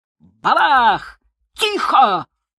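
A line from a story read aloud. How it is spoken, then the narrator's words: Barked. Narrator (Russian): рявкнул Ковицкий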